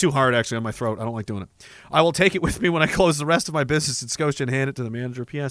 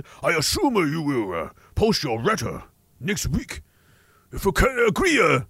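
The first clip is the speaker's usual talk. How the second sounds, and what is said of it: Exaggerated fake Japanese accent. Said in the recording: “Do more racist fake accents! ... I'm going to read the rest of it in a racist Japanese accent”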